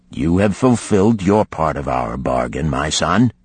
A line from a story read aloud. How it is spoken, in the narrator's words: said kindly